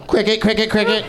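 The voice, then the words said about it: Imitates a cricket's chirping. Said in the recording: “That's my impression of a cricket noise.”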